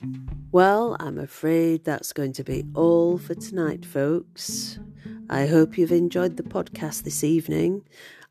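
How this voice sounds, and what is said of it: Strained, sore-throated voice. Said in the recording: “as you can hear, my voice is very unhappy with me. I've been suffering from strep throat”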